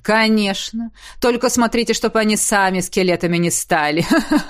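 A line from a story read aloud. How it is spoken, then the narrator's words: Ghost laughing. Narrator (Russian): Засмеялся призрак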